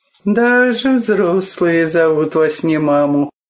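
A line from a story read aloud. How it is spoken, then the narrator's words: Sighing. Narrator (Russian): вздохнул Павел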